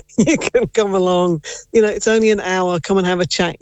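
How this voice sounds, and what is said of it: English accent. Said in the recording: “Based off your accent, I wonder, were you maybe born in England? ... I was born in Nottingham.”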